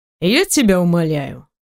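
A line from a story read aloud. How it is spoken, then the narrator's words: Snide, mocking. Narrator (Russian): ехидно улыбаясь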